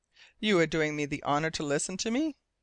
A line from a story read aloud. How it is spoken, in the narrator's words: asked sharply